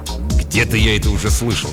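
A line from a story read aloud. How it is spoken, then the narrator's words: Grumbling mutter. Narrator (Russian): пробурчал Фрэнк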